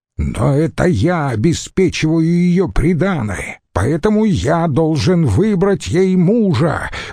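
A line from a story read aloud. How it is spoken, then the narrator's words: Roaring. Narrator (Russian): взревел Цицерон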